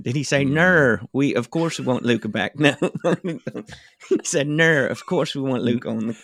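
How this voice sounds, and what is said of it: Imitated Australian accent. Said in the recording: “his Australian accent”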